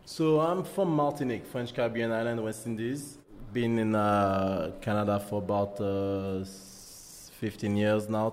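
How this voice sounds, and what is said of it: Strong French accent. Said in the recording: “I hear a French accent that's pretty strong.”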